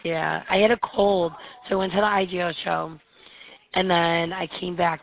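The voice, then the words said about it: Hoarse, strained voice. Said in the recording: “I'm getting over laryngitis ... I hear it in your voice ... I lost my voice”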